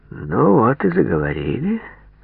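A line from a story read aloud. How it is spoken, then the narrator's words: Satisfied drawl. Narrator (Russian): удовлетворенно протянул Попов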